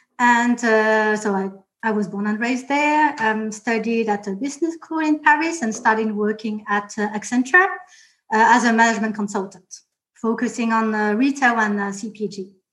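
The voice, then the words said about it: Mixed French and Australian accent. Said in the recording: “a strange Australian French accent”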